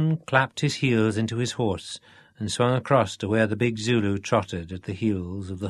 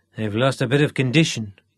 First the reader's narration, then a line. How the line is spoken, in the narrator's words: grumbled